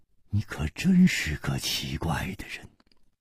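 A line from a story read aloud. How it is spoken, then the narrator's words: Sighing. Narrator (Chinese): 楚留香叹道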